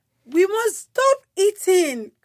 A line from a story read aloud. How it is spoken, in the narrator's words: cried Toad